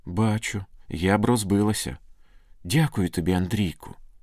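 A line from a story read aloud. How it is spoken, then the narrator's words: Trembling tearful girl's whisper. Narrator (Ukrainian): Тремтячим голосом прошепотіла дівчина, витираючи сльози, які текли по її щоках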